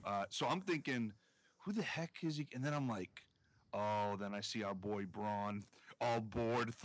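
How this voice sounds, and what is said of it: Usual voice. Nothing is said of it.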